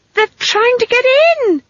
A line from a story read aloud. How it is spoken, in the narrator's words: she screamed